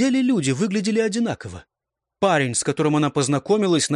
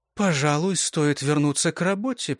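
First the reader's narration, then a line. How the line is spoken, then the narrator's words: Muttered. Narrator (Russian): пробормотала Хезер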